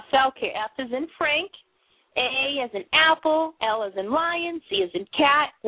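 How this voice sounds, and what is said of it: Boston accent. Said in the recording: “I know I have the Boston accent.”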